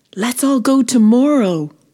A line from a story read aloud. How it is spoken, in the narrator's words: exclaimed